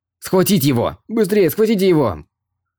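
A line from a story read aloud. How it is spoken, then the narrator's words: Quick shout. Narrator (Russian): Сян Вурен быстро крикнул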